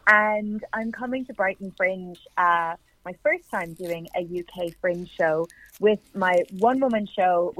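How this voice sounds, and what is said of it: Irish accent. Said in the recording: “from Ireland, in case you can't hear the accent.”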